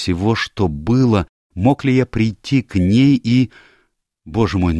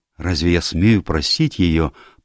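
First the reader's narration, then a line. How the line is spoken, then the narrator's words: Young man mumbling. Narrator (Russian): пробормотал молодой человек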